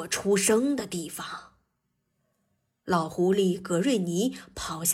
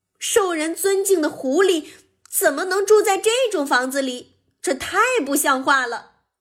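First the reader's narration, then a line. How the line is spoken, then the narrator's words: Screaming. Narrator (Chinese): 雷迪尖叫道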